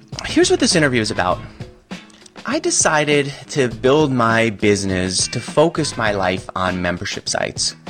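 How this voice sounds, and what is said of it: Stuffy, congested voice. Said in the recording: “home of a cold, I guess. I don't know that I have a cold. I'm just stuffy.”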